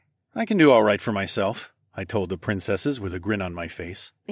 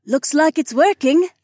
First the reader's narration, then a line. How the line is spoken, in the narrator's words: Jessamine cried out, and she clapped her hands with happiness